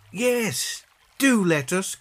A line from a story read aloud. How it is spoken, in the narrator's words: cried the children